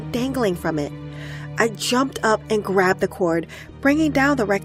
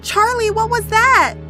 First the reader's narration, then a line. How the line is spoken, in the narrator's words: I called out without thinking